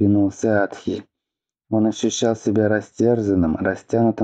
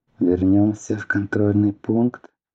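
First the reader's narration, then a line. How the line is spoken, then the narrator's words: Suggesting gently. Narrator (Russian): предложил Лидор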